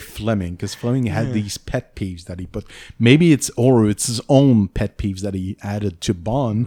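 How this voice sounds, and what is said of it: Mild French-Canadian accent. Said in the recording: “people know I'm French-Canadian. I have some weird saying sometimes or pronunciation that's unusual ... my accent is much better than the usual French Canadian”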